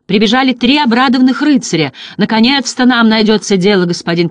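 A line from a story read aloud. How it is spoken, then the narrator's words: Overlapping excited shouting. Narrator (Russian): кричали они наперебой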